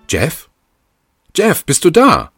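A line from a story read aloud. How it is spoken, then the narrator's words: Calling down a hallway. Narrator (German): rief sie durch den Flur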